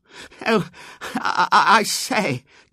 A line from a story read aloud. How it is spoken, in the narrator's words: gasped Robert